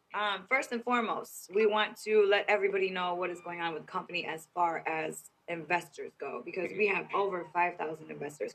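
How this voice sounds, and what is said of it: Raspy, partly lost voice. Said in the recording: “Excuse my voice, you guys. I was speaking real loud earlier today, so I've kind of lost my voice. So excuse me if I sound a little raspy.”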